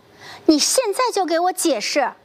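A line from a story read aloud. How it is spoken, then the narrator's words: Crying out, losing composure. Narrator (Chinese): 杜英失声喊道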